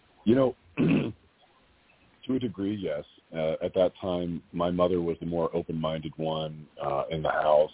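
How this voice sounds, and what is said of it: Raspy, hoarse voice. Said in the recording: “my voice is so raspy right now. I'm getting over a little bit of being under the weather.”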